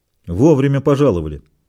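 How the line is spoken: Grumbling. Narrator (Russian): проворчал коренастый бог

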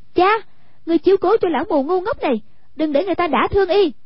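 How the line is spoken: Shout. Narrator (Vietnamese): Hoàng Dung quát

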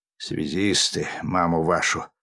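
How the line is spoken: Muttered. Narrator (Russian): пробормотал сержант

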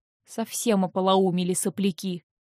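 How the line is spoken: Grumbled. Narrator (Russian): проворчал

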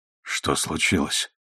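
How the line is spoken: Hoarse question. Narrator (Russian): хрипло спросил Оливер

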